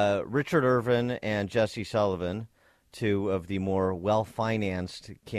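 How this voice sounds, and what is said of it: Usual voice. Nothing is said of it.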